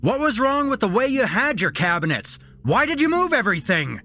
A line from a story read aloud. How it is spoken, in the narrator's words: he shouted